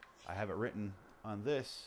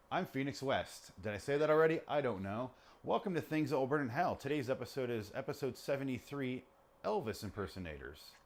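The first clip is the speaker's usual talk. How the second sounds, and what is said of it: Show intro announcer voice. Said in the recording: “started talking in my intro voice”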